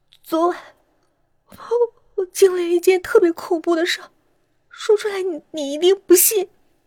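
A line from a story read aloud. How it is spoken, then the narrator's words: Tearful sobbing. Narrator (Chinese): 姚小诗一边红着眼圈，一边抽泣着说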